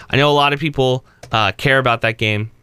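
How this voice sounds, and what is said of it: Sarcastic tone. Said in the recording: “I'm saying that sarcastically.”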